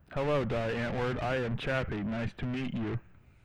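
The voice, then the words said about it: Robotic character voice. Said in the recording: “your best Chappie impersonation ... That was good. ... Straight robot. ... Effortless.”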